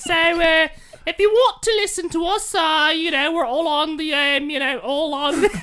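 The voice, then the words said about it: Loud put-on queen-like accent. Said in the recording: “Why are you so loud? ... he can't do the accent quiet. Yeah. Can the queen whisper?”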